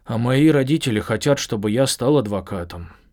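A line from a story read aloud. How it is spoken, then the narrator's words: Unhappy sigh. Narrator (Russian): с несчастным видом вздохнул Брэндон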